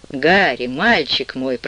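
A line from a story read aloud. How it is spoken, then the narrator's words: Moaning. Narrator (Russian): простонал он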